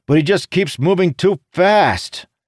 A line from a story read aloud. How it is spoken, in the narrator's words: Jacob blurted